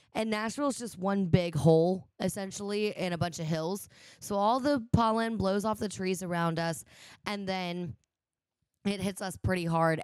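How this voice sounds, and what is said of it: Raspy, nasal voice. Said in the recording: “apologize for my voice. It's still raspy. It's still kind of nasally ... allergies”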